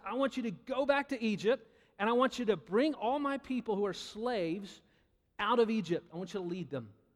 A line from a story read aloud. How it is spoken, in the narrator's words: God called out to Moses and He said